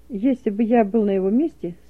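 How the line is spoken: Calm explanation. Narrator (Russian): спокойно объяснил Рябушин

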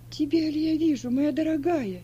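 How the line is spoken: Exclaiming. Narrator (Russian): воскликнула Сильва

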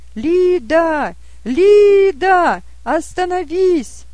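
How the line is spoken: Shouted. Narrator (Russian): он закричал

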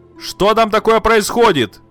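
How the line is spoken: Shout. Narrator (Russian): Мать крикнула

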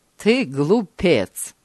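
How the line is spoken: Mocking tone. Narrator (Russian): насмешливо сказал тот

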